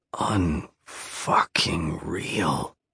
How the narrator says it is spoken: I mutter, trying to catch my breath

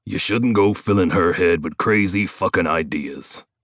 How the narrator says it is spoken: he says through a sneer

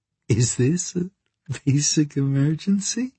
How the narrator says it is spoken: She giggled

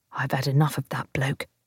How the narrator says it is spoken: Jimmy muttered to me

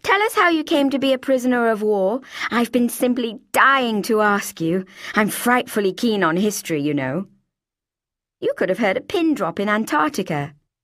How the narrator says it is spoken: I found my mouth suddenly blurting

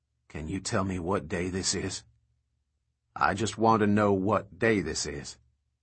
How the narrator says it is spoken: his mouth saying quietly

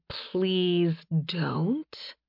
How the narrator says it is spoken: Mora whispered

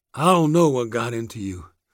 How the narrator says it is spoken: he panted

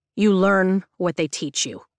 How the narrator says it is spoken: Zayden says to the first year, his voice taking a hard edge

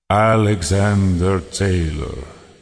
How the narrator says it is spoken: Salinor said, his voice deep and his tone formal

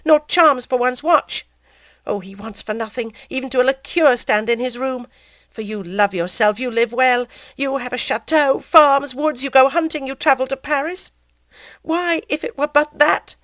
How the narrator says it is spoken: she cried

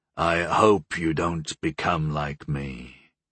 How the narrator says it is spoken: Goal said in a dark tone

